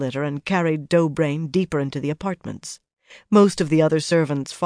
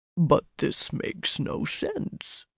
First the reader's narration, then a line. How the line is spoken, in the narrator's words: the Ogier muttered, frowning